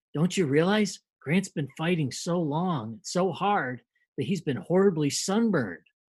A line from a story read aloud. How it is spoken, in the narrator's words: whisper in his ear and they say